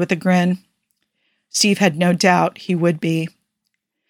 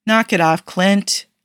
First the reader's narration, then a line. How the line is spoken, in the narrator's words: Bucky said